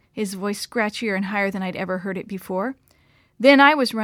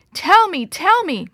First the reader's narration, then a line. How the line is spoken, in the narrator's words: shouted